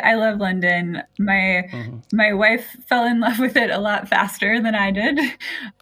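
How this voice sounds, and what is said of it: American accent from Seattle. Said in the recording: “you've swapped the drizzle of Seattle, as we can tell from your accent, you're not from around these parts”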